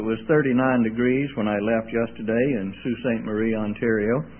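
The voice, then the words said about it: Southern American accent. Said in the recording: “I'm originally from Mississippi. I didn't get this accent in Canada.”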